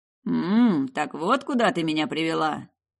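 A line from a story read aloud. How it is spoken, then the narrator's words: Amused snort. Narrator (Russian): Ал хмыкнул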